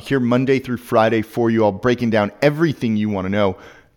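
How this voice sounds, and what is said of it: Voice giving out, strained. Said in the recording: “lose my voice”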